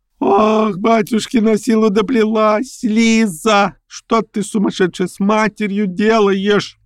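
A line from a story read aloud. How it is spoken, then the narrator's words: Irritated shriek. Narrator (Russian): Взвизгнула, кладя в этот взвизг по обыкновению всех слабых, но очень раздражительных особ все, что накопилось раздражение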